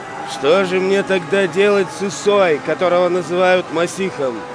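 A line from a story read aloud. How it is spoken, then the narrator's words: Plain. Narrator (Russian): спросил Пилат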